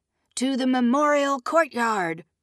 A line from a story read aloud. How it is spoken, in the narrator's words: Moraine shouted